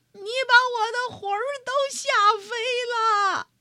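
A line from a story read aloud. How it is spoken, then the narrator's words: Old woman shouting. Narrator (Chinese): 瘦小的老妇人喊起来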